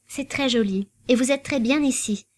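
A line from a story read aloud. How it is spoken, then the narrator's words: Uncertain stammer. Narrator (French): balbutia Isabelle, sans trop savoir que dire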